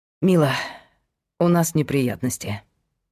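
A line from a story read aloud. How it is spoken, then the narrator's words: Sighed. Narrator (Russian): вздохнул Павел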